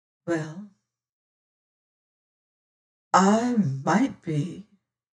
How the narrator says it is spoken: says she slowly

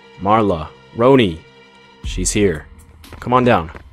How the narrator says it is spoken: he called out in a firm but irritated voice

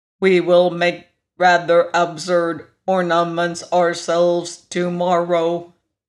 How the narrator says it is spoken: observed the machine in his monotonous voice

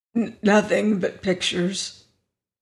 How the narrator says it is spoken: he muttered hoarsely

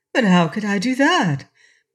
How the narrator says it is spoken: exclaimed Prince Inga, amazed at receiving such advice

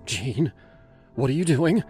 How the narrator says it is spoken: she asked, her voice sharp with fear

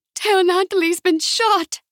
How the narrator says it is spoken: she cried, pressing her hands against the tiny woman's right ribs

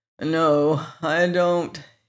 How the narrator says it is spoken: groaned

